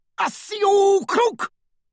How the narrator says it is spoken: roared one of the Death Eaters

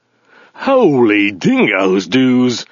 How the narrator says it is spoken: snarled Zaphod

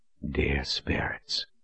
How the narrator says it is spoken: Richard whispered

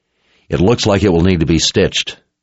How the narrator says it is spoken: Richard said

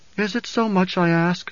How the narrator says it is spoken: Jessica pleaded

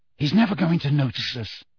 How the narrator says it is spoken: he whispered

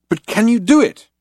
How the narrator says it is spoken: cried Loonquall

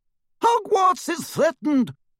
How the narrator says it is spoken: shouted Professor McGonagall

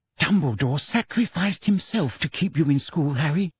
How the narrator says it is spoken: whispered Hermione

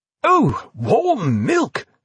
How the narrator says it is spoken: exclaimed the Sutler clone foguishly, displaying a sort of second childhood delight

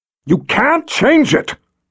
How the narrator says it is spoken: yelled

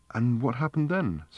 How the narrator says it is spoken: said Fenchurch in the same breathless tone

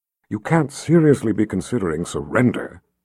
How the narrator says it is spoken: she said in a low voice that those across the way wouldn't hear

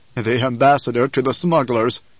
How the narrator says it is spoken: the Baron chuckled

